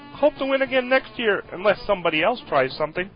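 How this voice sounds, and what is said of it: Kermit the Frog puppet voice. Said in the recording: “This is Kermit the Frog, best impression of 2010.”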